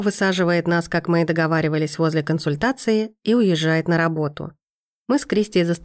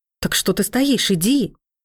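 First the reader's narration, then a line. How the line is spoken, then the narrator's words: Indignant cry. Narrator (Russian): Возмущенно вскрикиваю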